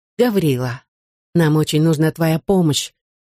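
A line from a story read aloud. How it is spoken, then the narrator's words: Gentle. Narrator (Russian): мягко сказал Алексей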